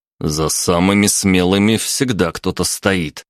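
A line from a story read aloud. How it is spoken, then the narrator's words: Plain. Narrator (Russian): сказал я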